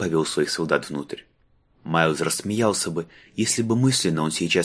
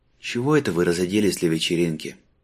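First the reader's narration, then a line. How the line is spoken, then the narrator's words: Tired question. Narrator (Russian): устало спросил Майлз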